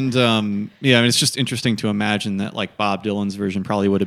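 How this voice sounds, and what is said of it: Usual voice. Nothing is said of it.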